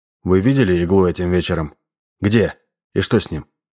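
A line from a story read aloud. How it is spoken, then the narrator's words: Surprisingly even voice. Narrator (Russian): Девушка на удивление ровным голосом ответила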